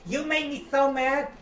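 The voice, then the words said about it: Put-on American accent. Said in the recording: “That's my American accent”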